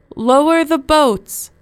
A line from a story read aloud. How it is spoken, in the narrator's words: the captain shouted above the noise of the storm